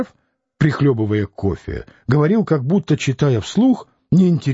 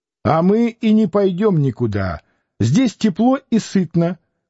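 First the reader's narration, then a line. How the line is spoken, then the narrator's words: Shouted. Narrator (Russian): крикнула Дуняша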